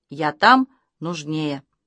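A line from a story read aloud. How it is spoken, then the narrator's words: Plain. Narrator (Russian): ответил Василий Васильевич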